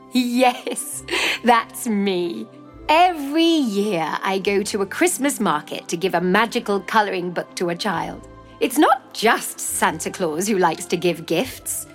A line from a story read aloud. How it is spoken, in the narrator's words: Claus started laughing and replied